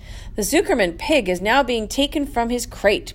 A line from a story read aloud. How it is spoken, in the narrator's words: boomed over the loudspeaker